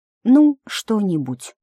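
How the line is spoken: Sighing sadly. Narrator (Russian): печально вздыхала и отвечала

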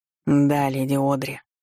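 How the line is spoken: Displeased reply. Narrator (Russian): отозвался он недовольным голосом

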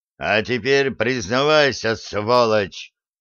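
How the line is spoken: Menacing near-full-volume roar. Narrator (Russian): Грозно рыкнул включая голосовые связки почти на полную мощность

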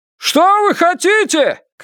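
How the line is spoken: Shout. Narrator (Russian): крикнул Феннер

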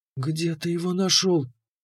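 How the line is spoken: Whisper. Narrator (Russian): прошептала она

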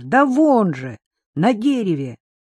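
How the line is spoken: Exclamation. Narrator (Russian): Адам воскликнул

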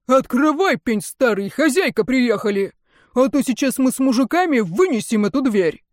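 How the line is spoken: Irritated coachman barking. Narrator (Russian): Кучер рявкнул с раздражением

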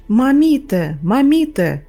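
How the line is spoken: Shouting. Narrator (Russian): кричала Галя

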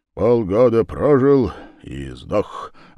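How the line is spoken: Grumbling. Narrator (Russian): ворчал господин Торстейн

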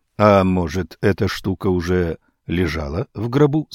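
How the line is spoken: Plain. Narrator (Russian): сказал Веренг

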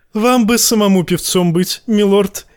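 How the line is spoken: Giggling. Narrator (Russian): хихикнула леди Леонетта

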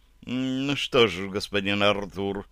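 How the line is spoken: Sigh, slightly upset. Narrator (Russian): вздохнула графиня, будучи в образе чуть расстроенной девушки

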